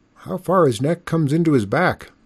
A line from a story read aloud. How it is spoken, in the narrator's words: exclaimed Solomon John